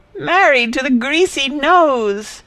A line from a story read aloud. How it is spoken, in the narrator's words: she yelled